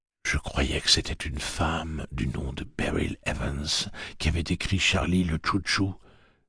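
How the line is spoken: Whispered. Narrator (French): chuchota-t-il

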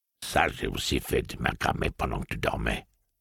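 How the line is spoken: Plain. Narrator (French): avait-elle dit

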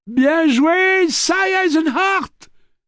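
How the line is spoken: Yelled. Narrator (French): hurla Jake

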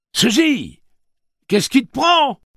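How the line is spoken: Yelling. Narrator (French): hurla Eddie

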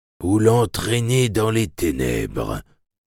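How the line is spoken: Murmuring. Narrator (French): murmura-t-il

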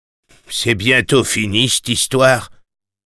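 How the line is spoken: Impatient grumble. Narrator (French): grommela l'homme à la montre

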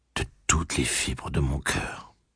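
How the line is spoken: Woman murmuring. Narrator (French): murmura-t-elle

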